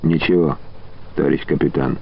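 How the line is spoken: Quiet response. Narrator (Russian): тихонько откликнулся Василий

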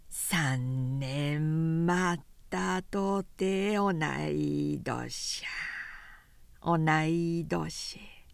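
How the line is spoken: Slow drawling languid singing. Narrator (Japanese): 間延びしたしたったるい調子でゆっくりと歌っているのである

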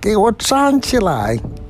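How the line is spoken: Shrill scream. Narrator (Chinese): 皇后又尖声的叫起来了

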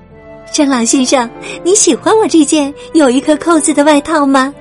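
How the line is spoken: Smiling question. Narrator (Chinese): 汉塔小姐笑着问

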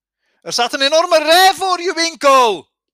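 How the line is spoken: Calling out. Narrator (Dutch): riep de ritster

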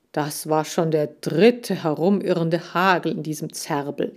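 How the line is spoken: Plain. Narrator (German): sagt er

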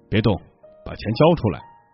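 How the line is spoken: Low urgent shout. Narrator (Chinese): 两条黑影低声的喊

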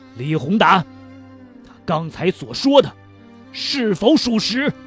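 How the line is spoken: Stern demanding shout. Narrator (Chinese): 厉声喝问道

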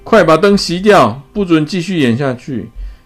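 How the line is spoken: Tense loud shout. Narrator (Chinese): 克劳迪紧张大喊

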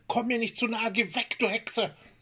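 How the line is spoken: Screamed. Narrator (German): schrie

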